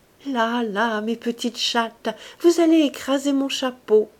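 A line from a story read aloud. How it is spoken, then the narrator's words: Fluting voice. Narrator (French): d'une voix flûtée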